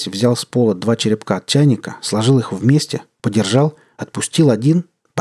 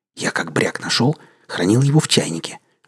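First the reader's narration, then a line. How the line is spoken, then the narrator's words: Conspiratorial whisper. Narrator (Russian): заговорщицким шепотом начал объяснять князь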